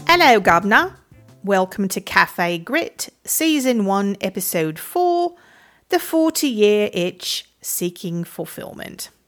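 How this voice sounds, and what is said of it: Poorly done put-on British accent. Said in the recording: “completely slaughtering what might be a UK accent, but perhaps not. I'm not even 100% sure. I do not do accents.”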